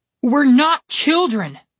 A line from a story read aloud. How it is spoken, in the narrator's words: Connor shouted